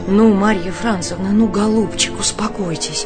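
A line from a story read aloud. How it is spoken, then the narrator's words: Hurried whisper. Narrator (Russian): торопливо зашептала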